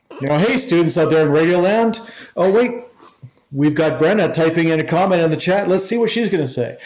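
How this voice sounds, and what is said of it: Radio DJ host voice. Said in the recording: “put on my radio voice ... I feel like Dr. Johnny Fever from WKRP ... I feel like a radio host”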